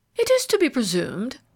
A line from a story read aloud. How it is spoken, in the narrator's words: said Ralph Mainwaring haughtily, stung by the tinge of irony in the other's tone